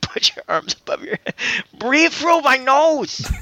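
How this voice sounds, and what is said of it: Exaggerated put-on ethnic accent. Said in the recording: “I can't even keep this racist accent going for very long.”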